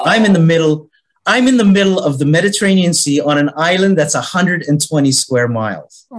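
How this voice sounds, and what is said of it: Canadian accent. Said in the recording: “as you can hear with my accent, I'm originally from Canada.”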